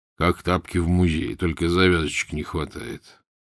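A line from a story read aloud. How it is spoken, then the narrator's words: Low booming, older man. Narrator (Russian): седовласый прогудел жене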